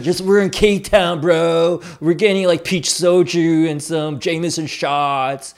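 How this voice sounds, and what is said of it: Put-on K-Town bro white-guy accent. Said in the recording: “You like my K-Town bro, white guy accent?”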